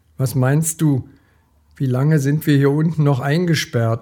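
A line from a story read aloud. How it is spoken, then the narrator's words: Groaned. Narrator (German): stöhnte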